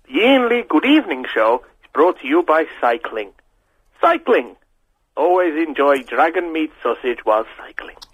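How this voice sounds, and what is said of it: Impression of an advert announcer. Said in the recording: “doing an impression of the dragon meat sausage man, but he's got a good quality phone ... it sounds awful”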